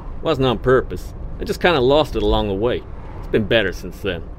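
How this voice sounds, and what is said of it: American-sounding accent. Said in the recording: “why do I sound like a Yank?”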